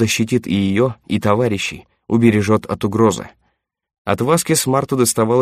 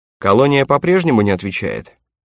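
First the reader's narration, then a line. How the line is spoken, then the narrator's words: Casual question. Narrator (Russian): небрежным тоном поинтересовался представитель компании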